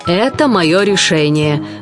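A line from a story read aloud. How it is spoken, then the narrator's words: Rough monster voice. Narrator (Russian): грубо сказала чудовище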